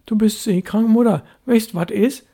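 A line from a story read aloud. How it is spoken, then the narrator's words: Calling after someone. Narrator (German): rief Störtebecker hinter ihr her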